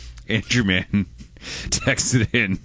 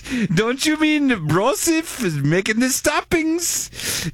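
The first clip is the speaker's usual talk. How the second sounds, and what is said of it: Mock German accent. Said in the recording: “We're going to get a phone call from Berlin being like, bro, stop. ... we don't sound like that. ... I won't do Andrew Manson the German.”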